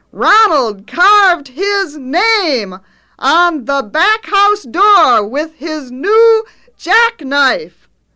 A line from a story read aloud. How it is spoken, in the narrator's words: Trevor shouts as loud as he can